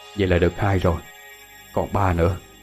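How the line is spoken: Whisper. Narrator (Vietnamese): Thiên Phong thì thầm

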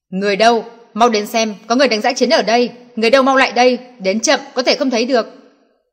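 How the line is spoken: Sudden frantic yelling. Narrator (Vietnamese): Đột nhiên, thanh âm của Nelson lớn tiếng, điên cuồng gào thét

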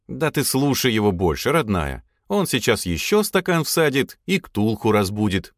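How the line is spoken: Falsely calm tone. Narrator (Russian): фальшиво спокойным тоном сообщил я жене

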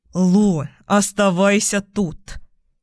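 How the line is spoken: Through gritted teeth. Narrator (Russian): Сквозь сжатые зубы процедил Ник

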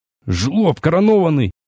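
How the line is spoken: Wheezing, forced out in pain. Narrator (Russian): хрипя выдавил я, когда после очередного падения прибольно ударился о мраморную плиту локтем

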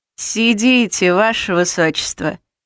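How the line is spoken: Amused snort. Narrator (Russian): хмыкнул маг

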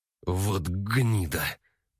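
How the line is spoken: Growl. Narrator (Russian): прорычал мужчина

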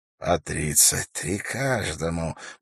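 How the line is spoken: Relishing whisper. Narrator (Russian): прошептал вождь туалагов, наслаждаясь этими цифрами

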